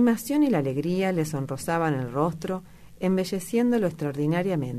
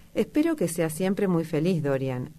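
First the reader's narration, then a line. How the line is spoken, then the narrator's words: Plain. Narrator (Spanish): dijo Hallward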